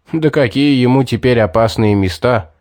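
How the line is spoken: Short chuckle. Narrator (Russian): хохотнул Стоун

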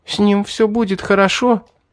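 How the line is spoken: Sobbing question. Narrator (Russian): всхлипывая, спросила Мирра

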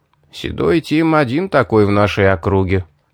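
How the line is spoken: Smirking grunt. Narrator (Russian): хмыкнул Кирх

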